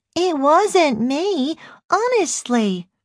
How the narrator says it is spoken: she repeated, speaking in a babyish voice

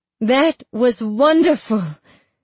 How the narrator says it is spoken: I declare, too loudly

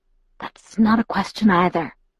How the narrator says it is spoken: I whispered

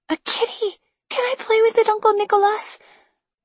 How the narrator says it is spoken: she gasped

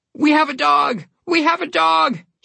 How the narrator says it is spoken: he exclaimed

